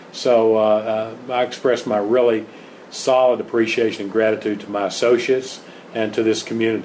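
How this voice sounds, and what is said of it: Non-local regional accent. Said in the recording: “as you can tell by this accent, I'm not from around here”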